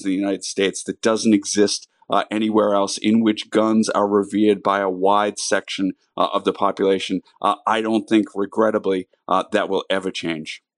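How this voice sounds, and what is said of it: Massachusetts accent. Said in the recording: “obviously you can hear from his accent, from Massachusetts”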